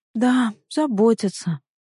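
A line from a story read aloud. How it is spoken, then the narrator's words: Sigh. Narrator (Russian): вздохнул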